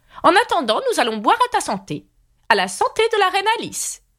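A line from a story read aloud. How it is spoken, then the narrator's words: Screamed at full voice. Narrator (French): hurla-t-elle de toutes ses forces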